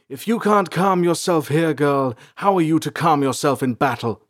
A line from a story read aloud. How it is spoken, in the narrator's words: Salanth shouted